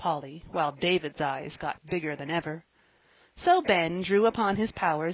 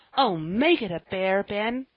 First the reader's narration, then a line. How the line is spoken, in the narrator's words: cried Joel, terribly disappointed